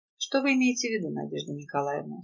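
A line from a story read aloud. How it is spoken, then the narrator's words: Dry, curt inquiry. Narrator (Russian): сухо осведомился мужчина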